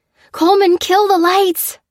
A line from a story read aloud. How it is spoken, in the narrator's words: she cried, sensing what was coming